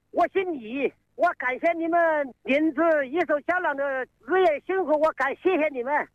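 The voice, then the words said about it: Regional Chinese accent. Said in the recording (Chinese): “听你口音”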